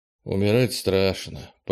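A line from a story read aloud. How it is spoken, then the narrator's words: Muttering. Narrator (Russian): пробормотал он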